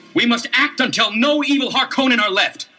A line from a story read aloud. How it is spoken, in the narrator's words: Paul cried out